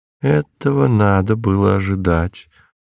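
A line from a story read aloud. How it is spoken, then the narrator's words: Gentle, affectionate. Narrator (Russian): ласково сказала миссис Морс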